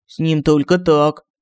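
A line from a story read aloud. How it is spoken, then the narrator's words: Angry grumble. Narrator (Russian): Сердито проворчал Семен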